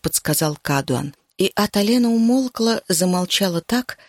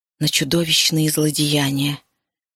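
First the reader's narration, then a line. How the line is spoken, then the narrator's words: Whisper. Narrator (Russian): наконец прошептала она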